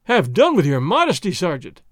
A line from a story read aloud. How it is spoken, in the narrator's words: Don Diego cried